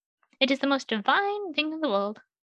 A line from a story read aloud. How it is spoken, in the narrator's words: he exclaimed, eyes bright with delight